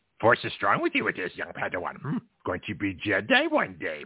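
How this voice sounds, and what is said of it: Yoda impression. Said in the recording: “if I did Yoda ... my impression ... probably sounds good on radio”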